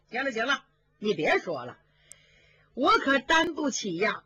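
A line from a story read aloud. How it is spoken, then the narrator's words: Hearty laughter. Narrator (Chinese): 宝玉哈哈大笑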